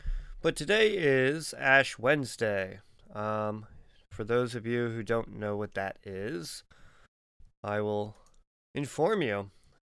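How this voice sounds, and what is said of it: Raspy, rough voice. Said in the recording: “Feeling a little raspy today”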